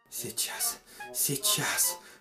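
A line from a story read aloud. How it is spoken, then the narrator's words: Whisper. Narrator (Russian): шептал царь Колбаска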